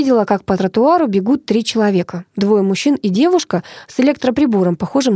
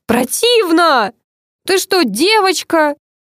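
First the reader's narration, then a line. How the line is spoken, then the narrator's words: Shouted back. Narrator (Russian): крикнул в ответ Леонид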